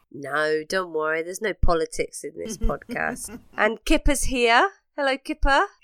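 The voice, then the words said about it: Congested, sniffly voice. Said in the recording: “You'll have to excuse my voice this week. I've got a bit of a cold, got a bit of the sniffles.”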